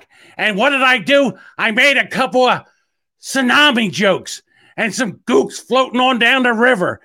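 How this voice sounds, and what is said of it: Imitates another person's voice. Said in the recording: “I've never tried a Gilbert Gottfried voice... I was doing Gilbert Gottfried”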